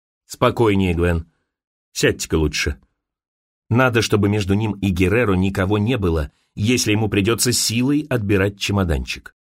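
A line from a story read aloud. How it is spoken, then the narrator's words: Quiet, low. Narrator (Russian): Димирест произнес негромко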